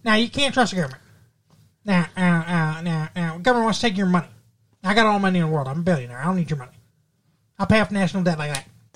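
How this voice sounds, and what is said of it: Imitates another person's voice. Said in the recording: “That's a good Ross Perot. ... It's a really good Ross Perot impression.”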